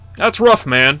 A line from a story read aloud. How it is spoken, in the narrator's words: Barry said